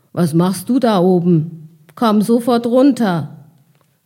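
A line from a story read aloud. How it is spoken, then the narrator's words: Calling. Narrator (German): rief einer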